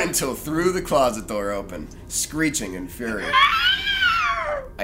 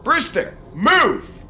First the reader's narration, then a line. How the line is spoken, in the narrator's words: I yelled